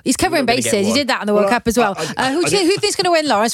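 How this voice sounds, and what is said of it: Welsh accent. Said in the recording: “your beautiful Welsh accent”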